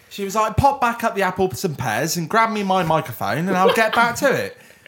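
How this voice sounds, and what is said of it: Put-on Cockney accent, drifting West Country. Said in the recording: “I can do my good Cockney one ... That was a little bit like Michael Caine, actually ... you've got like a Western Super Mare version of Michael Caine ... I always end up doing fucking Somerset”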